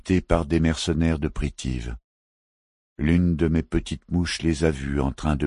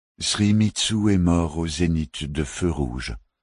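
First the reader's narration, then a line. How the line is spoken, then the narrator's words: Plain. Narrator (French): dit Lang Shupai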